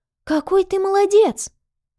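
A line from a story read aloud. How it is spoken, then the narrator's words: Exclamation. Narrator (Russian): воскликнула Нюся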